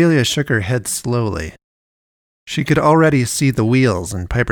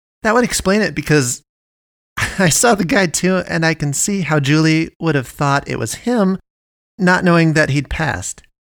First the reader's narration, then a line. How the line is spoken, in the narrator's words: She laughed and said